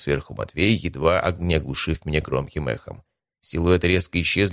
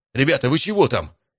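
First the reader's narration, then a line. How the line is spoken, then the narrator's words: Loud echoing shout. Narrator (Russian): крикнул я, и теперь меня чуть не оглушило эхом от собственного голоса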